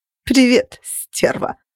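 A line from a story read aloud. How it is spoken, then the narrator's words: Laughing, silky purr. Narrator (Russian): Она рассмеялась вкрадчиво мурлыча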